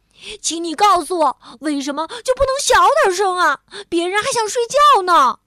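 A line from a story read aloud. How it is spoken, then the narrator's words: Sudden loud shout. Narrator (Chinese): 蹦蹦突然大声喊道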